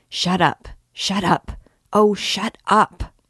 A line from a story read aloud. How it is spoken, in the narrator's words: he waited with his whole body clenched, muttering